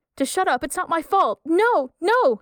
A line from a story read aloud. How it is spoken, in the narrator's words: screams